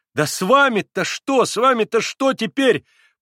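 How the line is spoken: Shouting. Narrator (Russian): прокричал опять Петр Ильич

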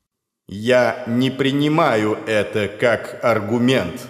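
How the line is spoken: Calm. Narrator (Russian): спокойно произнес Дорфл из недр дымного облака

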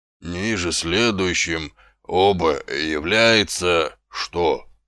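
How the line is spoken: Slow, uncertain reading. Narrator (Russian): медленно прочел он, неуверенно

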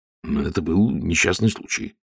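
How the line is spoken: Muttered. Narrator (Russian): пробормотал Ваймс

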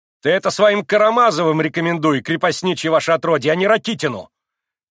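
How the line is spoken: Sudden furious trembling shout. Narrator (Russian): крикнул он вдруг, так и затрясшись от злости

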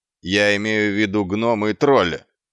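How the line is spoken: Barked. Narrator (Russian): рявкнул Квирк

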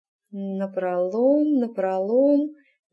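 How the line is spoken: Muttering under breath. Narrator (Russian): забормотала она себе под нос

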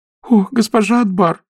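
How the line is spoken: Sobbing. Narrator (Russian): всхлипнула Нетл

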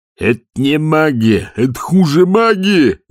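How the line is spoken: Yelled. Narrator (Russian): завопил тот

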